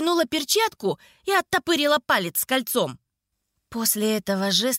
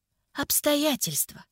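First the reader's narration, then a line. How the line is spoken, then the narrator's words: Gentle, affectionate. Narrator (Russian): ласково произнесла я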